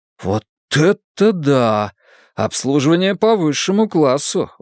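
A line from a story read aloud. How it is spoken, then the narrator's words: Exclaiming. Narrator (Russian): воскликнул Лодзи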